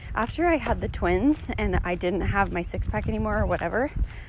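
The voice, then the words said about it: Out of breath while talking. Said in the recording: “why do my walks get me so out of breath?”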